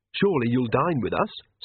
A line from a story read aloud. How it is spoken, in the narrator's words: said Magrat